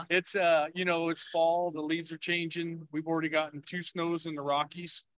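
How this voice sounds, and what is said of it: Western Colorado rural accent. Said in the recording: “You seem to have an accent, but it doesn't seem like you're from Colorado ... maybe I speak more native Western Colorado than everybody else”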